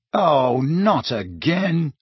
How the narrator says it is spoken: he groaned

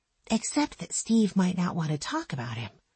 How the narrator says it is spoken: whispered Jesse

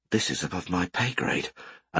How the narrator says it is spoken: The guard who challenged them muttered

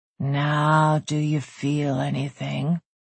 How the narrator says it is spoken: he rasped against her lips

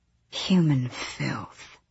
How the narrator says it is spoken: the demon hissed

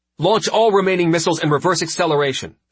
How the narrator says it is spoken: she snapped

